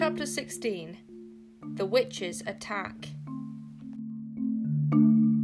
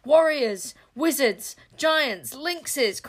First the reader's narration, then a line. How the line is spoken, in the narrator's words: cried Sycorax